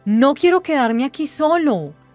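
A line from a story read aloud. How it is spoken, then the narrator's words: Foot-stamping exclamation. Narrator (Spanish): exclamó, golpeando el suelo con el pie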